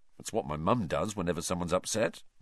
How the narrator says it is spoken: Ron muttered

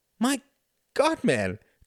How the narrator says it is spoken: cried Tom

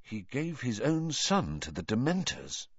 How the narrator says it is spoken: asked Harry quietly

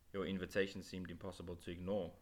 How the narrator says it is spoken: Adam replied dryly

